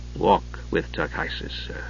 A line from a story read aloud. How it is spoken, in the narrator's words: Steele said softly